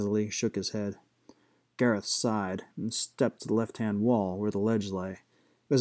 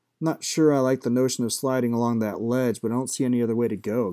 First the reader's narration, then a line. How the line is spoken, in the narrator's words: Gareth said